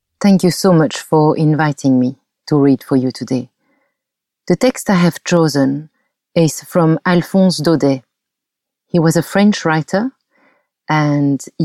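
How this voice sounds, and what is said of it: Beautiful French accent. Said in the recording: “She picked a touching French story that is absolutely perfect with her beautiful accent.”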